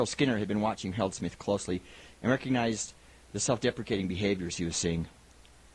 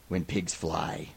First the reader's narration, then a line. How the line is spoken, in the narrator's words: Schmitty muttered